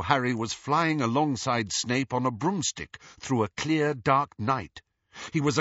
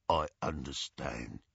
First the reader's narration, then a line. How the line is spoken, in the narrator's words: murmured Mundungus